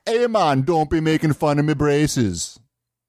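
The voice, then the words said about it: Bad put-on Jamaican accent. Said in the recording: “my horrible Jamaican accent”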